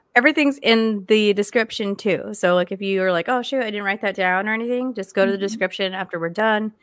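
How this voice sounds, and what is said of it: Strained, worn-out voice from illness. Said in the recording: “sorry about my voice, guys. I still have this horrible cough ... I think my voice might be giving out on me for today”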